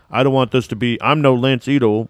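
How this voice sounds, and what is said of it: Exaggerated put-on Black American voice. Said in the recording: “doing the super black voice”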